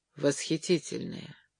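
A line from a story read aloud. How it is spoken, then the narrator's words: Gloomy. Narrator (Russian): ответил Джерри мрачно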